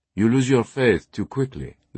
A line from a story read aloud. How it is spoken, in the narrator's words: the teacher replied